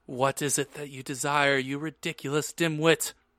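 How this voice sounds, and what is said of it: Cold, angry Snape voice. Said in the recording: “Snape demanded angrily in his cold voice”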